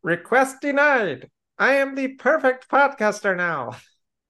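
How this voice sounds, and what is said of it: Nasal comic character voice. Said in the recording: “that voice ... He sounds more like a snork. ... he's doing Latka from Taxi, but worse. ... It's the nasal without the accent part.”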